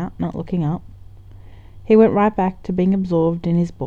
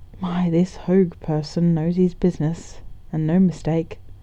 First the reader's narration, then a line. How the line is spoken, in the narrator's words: he muttered